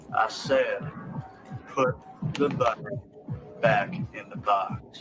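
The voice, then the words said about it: Poorly done put-on accent. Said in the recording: “Terrible accent”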